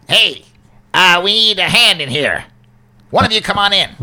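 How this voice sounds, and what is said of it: Imitating a goblin's voice. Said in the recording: “you heard him talk, so maybe you can do his voice ... do you just perfectly imitate the voice?”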